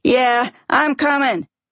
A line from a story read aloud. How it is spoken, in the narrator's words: Rick yells from the bathroom